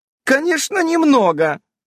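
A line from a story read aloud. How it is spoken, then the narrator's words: Forced cheerful voice. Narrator (Russian): преувеличенно бодрым голосом продолжила свой рассказ Ульянка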